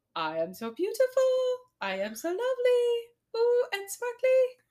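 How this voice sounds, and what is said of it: Sung in a cartoon character voice. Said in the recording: “do it in my Bingo voice... I'm going to do it in my Bingo voice. Cause if I try to do it in my normal voice”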